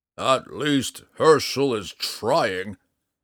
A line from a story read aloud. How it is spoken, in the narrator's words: Matthias growled